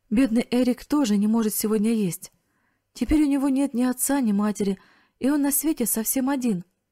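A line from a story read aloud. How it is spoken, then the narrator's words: Sobbing through tears. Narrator (Russian): Она разразилась громкими рыданиями и произнесла сквозь слезы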